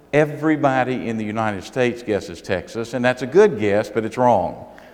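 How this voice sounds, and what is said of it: Southern US accent. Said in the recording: “my accent is not from the Boston area ... I'm from South Carolina ... southern accent”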